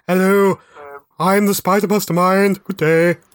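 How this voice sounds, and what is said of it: Posh character voice. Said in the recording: “he'd be quite posh ... he'd still have a posh accent”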